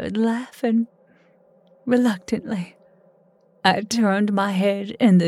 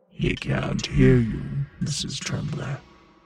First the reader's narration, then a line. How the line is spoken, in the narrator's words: he growled, his voice as otherworldly as the one I had heard from the devil